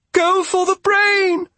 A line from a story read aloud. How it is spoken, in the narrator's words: cried